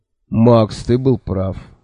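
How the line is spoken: Dejected voice from behind. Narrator (Russian): упавшим голосом сказал Кофа откуда-то сзади

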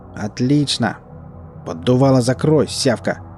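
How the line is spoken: Growling. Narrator (Russian): Последний Валдис прорычал бандиту

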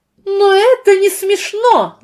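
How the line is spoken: Shout. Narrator (Russian): закричала Энни

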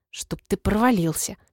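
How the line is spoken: Hissing. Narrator (Russian): прошипела я ему

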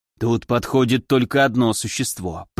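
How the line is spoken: Mutter. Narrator (Russian): пробормотал он

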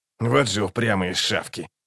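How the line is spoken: Mutter. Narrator (Russian): пробормотал Локон

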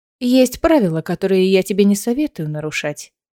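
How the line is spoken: Plain. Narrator (Russian): сказала Аэлина

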